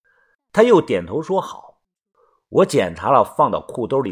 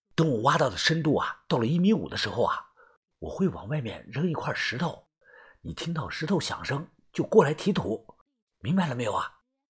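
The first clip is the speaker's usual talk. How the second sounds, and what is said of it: Quiet, hushed speaking voice. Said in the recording (Chinese): “我继续小声的说道”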